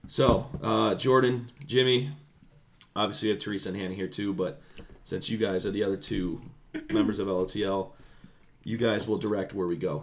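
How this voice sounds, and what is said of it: Rough, failing voice. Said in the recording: “my voice has went from bad to worse”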